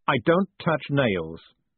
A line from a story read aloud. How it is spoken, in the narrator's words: said Dave sharply